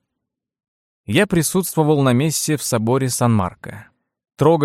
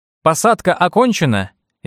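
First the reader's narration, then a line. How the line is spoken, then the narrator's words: Cheerful shout. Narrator (Russian): весело крикнул я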